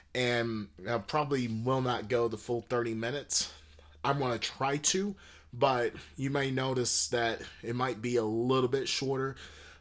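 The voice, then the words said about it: Sick voice, throat clearing and coughing. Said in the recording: “You're going to be hearing me clear my throat and coughing quite a bit ... I'm getting a little bit sick, and so I hope my voice is not too distracting”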